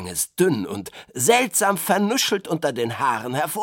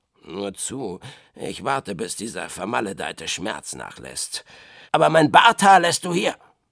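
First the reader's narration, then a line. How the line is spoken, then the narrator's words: Growling. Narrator (German): der sah selbst etwas blass aus und knurrte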